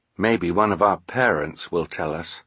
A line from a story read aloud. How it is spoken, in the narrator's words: Klaus said quietly